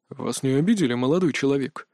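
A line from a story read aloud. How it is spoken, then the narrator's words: Surprisingly calm question. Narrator (Russian): На удивление спокойно осведомился Лэн Сарха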